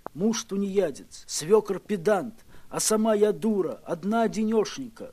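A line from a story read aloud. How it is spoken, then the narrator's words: Tearful complaint. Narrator (Russian): пожаловалась она сквозь слезы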